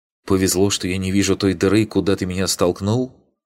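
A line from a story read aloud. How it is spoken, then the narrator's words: Angry. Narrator (Russian): сердито ответила Ригарди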